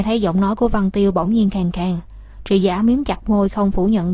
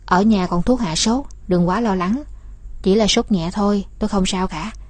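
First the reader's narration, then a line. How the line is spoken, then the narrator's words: Gentle comforting tone. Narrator (Vietnamese): nhẹ nhàng nói như muốn an ủi Văn Tiêu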